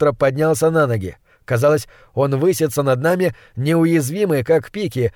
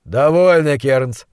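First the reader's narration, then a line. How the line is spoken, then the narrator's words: Tired interjection. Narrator (Russian): устало вмешался монстролог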